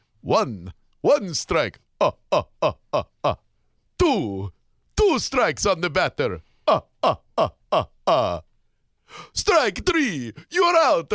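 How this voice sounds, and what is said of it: Imitates the Count character's voice. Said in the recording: “how about the count? ... Is that a pretty good one?”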